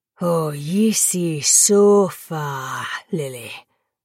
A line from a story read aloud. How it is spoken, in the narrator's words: Nikita snarled